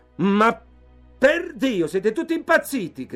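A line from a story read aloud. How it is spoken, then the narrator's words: Shouted. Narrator (Italian): gridò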